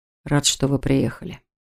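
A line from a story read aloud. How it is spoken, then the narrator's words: Quiet man. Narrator (Russian): тихо сказал он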